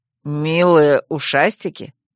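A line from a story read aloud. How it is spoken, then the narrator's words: Confused snort. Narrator (Russian): Растерянно хмыкнул вервульф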